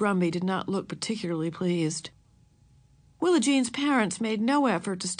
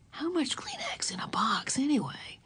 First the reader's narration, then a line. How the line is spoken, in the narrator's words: Huggins whisper